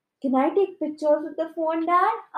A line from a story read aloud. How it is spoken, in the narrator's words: asked Noni excitedly